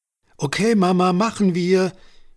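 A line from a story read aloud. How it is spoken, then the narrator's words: Cheerful call. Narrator (German): rief Amelie fröhlich, für die der kleine Ausflug das Warten auf den Heiligabend auf willkommene Weise verkürzte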